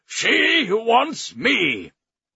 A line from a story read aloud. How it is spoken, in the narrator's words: Then, more fiercely, he cried